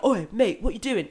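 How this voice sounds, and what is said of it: Gruff exaggerated male voice. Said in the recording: “my horrible man voice”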